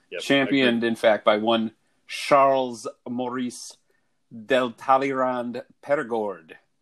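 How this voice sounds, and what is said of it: Put-on Scottish accent. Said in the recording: “You'd said that with like a Scottish accent ... I knew I couldn't pull off the French”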